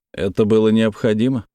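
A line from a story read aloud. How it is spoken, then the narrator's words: Plain. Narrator (Russian): спросил я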